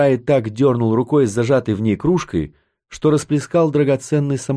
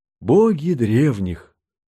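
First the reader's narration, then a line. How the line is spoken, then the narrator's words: Ecstatic exclamation. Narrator (Russian): в полном восторге воскликнул Тарай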